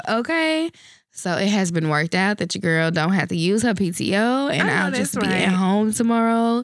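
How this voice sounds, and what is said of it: Stuffy, congested voice. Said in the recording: “I'm stuffy, so forgive my voice and my nose and my cough”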